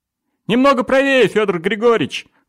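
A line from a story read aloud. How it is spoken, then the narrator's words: Midshipman shouting from afar. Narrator (Russian): крикнул с бака мичман Оленин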